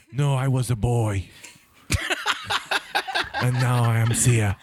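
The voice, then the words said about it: Imitates another person's voice. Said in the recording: “I can do a good Arnold impression.”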